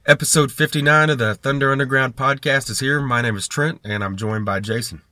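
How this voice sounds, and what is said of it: Voice slightly off from illness. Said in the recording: “my voice is still a little out of it like it was last episode ... I had a relapse”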